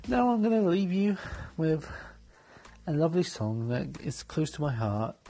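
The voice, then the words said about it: Non-Canadian foreign accent. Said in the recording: “I'm new to Canada, as you can tell by my voice”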